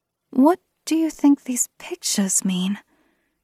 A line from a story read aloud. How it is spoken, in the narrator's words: I whispered to Erwin